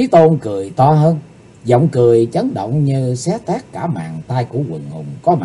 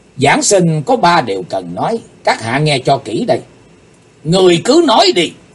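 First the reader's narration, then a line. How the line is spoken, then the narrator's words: Fierce shout. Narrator (Vietnamese): Chí Tôn dựng ngược đôi mày, quát tiếng nói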